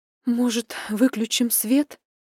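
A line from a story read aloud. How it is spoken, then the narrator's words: Breathy, embarrassed. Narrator (Russian): выдохнула я, уводя в сторону взгляд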